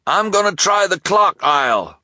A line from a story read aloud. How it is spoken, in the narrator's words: the shopkeeper cried